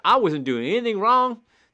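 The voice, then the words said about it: Imitated southern accent. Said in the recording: “in his southern accent”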